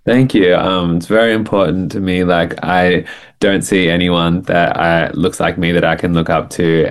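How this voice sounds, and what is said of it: Australian accent. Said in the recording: “people would detect an accent. You are based in Australia”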